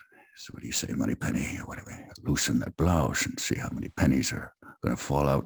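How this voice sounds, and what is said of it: Imitates a Scottish film star's voice. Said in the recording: “my Sean Connery impression. It's probably not very good”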